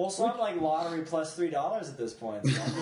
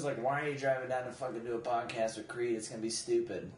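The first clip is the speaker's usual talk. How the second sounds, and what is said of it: Imitates another person's voice. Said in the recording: “That's a good impression of Tammy.”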